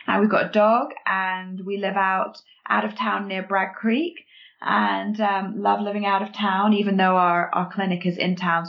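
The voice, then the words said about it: English accent. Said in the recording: “you can tell by our accents that we're not true Calgarians yet ... you guys grew up in England”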